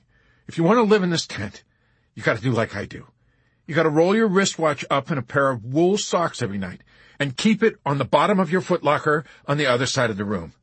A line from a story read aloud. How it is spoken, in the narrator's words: he explained harshly to Hoople very late one evening